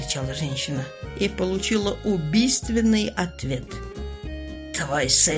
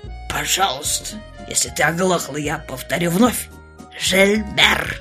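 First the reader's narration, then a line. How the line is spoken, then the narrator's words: Contemptuous pronouncement. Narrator (Russian): Барон хмыкнул и с нескрываемым презрением изрек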